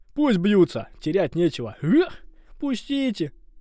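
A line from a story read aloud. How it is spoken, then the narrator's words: Pleading girl. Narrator (Russian): взмолилась девушка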